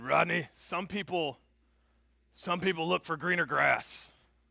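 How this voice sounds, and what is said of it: Gruff voice imitating another person. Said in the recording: “he said in this gruff voice ... That's my impersonation of Coach Meyer.”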